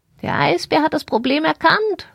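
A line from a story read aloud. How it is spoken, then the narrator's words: Calling out, agitated. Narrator (German): rief sie und flatterte wild mit ihren Flügeln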